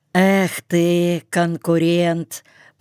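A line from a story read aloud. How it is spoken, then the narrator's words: Gritted teeth, lame man. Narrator (Russian): процедил хромой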